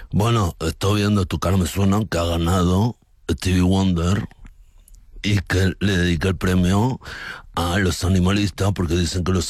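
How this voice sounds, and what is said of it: Imitates another person's voice. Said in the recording (Spanish): “Muy bueno esta imitación de tuya”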